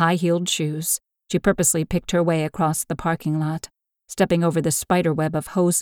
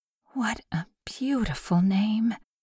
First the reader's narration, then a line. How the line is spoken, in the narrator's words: she murmured in a soft voice